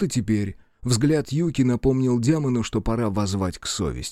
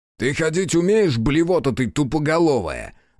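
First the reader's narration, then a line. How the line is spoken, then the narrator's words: Angry yelling. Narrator (Russian): заорал Аяшики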